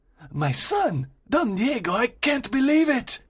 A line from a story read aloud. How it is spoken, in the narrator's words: exclaims Don Alejandro